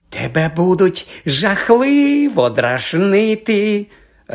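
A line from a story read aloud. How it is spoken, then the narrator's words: Gleeful announcement. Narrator (Ukrainian): радісно повідомила Мірта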